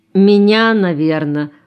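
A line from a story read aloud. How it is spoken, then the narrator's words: Glum, dejected. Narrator (Russian): уныло сказал Шура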